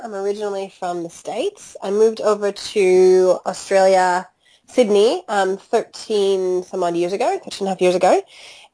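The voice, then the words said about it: American Chicago accent. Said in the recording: “you don't have a dinkum Aussie accent there ... my accent is from Chicago”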